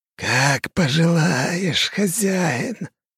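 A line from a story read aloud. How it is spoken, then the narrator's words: Wheezing, hoarse creature. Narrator (Russian): прохрипел ревенант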